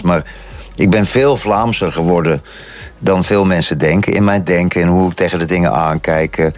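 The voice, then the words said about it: Netherlands Dutch accent. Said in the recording (Dutch): “Ook al klinkt mijn accent is nog altijd Nederlands.”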